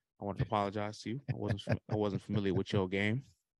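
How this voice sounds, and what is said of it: Imitates another person's voice. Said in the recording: “in my Shaq voice.”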